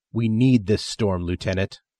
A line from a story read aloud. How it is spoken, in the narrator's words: Andy snaps